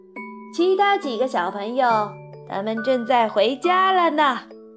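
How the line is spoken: Calling out. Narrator (Chinese): 他叫道

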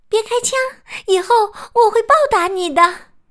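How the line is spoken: Crying out. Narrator (Chinese): 鱼儿叫道

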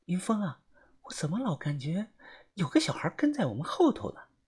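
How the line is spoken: Whispering. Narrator (Chinese): 小轩小声的跟我说

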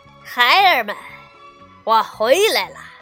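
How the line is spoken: Loud call. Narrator (Chinese): 悟空大声叫道

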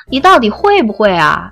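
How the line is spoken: Giggling foolishly. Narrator (Chinese): 维京痴痴的笑

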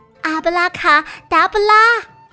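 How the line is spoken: Loud chanting. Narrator (Chinese): 温妮大声念道

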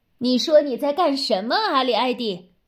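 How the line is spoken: Calling from afar. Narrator (Chinese): 霍姆里从厨房里叫起来

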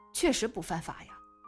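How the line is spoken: Muttering. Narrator (Chinese): 孙淼嘀咕了一句

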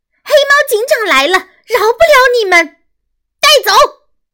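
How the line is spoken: Angry struggling shout. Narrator (Chinese): 曲靖妈妈一边挣扎，一边愤怒地喊

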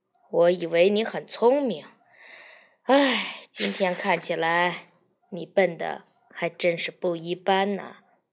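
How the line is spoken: Long sigh. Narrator (Chinese): 常开义长叹一口气说

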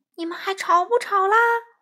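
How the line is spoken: Ghost screaming a question. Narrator (Chinese): 幽灵狂叫着发问

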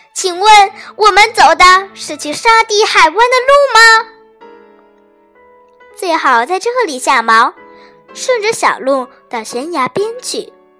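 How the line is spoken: Loud shout. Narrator (Chinese): 邋遢地朝他们大声喊道

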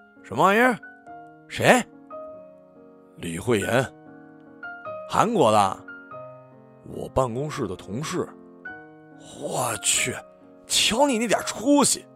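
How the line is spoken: Mumbling with full mouth. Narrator (Chinese): 张彻嚼着油条嘟囔了一句

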